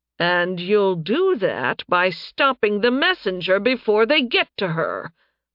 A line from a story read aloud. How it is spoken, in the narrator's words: Leopold growled